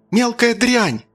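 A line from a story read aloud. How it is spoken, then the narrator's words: Mother's shout, then sobbing. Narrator (Russian): крикнула мать и зарыдала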